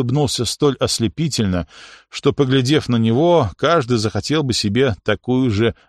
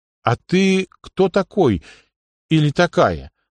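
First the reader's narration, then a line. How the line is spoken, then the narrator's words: Princess's uncertain question. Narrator (Russian): неуверенно спросила принцесса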